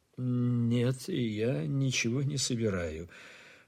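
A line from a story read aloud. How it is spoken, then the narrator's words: Calm, serious reporter. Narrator (Russian): продолжал спокойно и серьезно репортер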